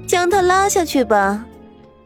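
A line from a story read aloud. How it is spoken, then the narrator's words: Softly amused, pleased. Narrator (Chinese): 他轻轻的笑了，像是看到了极为愉悦的事情 … 说道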